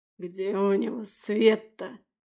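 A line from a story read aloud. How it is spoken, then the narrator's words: Hoarse, rough voice. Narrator (Russian): Голос был хриплым и грубым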